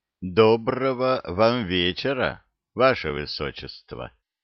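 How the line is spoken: Voice behind, unfamiliar accent. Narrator (Russian): Послышался из-за спины чей-то голос, говорящий на даркате с незнакомым акцентом

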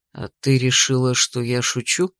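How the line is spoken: Insinuating dragon's question. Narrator (Russian): переспросил дракон вкрадчиво

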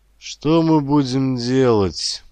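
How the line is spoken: Dejected question. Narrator (Russian): уныло спросил Андрей Николаевич

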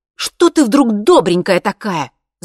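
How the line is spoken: Shouting. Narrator (Russian): закричала Наташа

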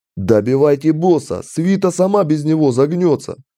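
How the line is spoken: Yelling. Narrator (Russian): заорал Рокс

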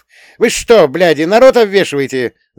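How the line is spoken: Yelling. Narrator (Russian): заорал нарубщиков

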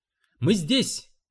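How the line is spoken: Shouted. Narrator (Russian): крикнул я ей

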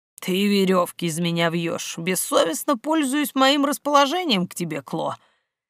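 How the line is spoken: Mock grumbling. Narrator (Russian): Для порядка ворчал Керт

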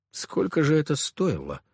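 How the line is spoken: Gloomy. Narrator (Russian): мрачно проговорил

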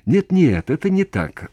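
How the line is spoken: Exclaimed. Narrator (Russian): воскликнул он

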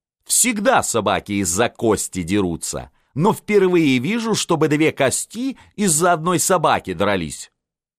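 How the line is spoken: Loud declaration. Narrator (Russian): Балакирев заявил громко

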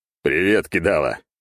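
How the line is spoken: Chuckling. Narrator (Russian): хохотнул я

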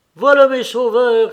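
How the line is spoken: Shouted. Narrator (French): cria Petritsky

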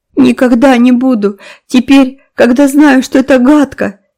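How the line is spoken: Solemn promise through sobs. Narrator (Russian): торжественно заверил Дэви между всхлипываниями

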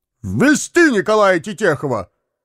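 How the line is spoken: Shouted command. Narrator (Russian): крикнул следователь

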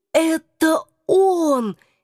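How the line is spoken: Hoarse whisper. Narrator (Russian): сипло прошептала я

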